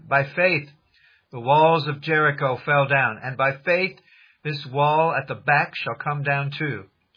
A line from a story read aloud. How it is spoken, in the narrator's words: while preaching there, I exclaimed